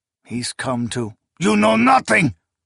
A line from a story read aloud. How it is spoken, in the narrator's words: the barbarian snarled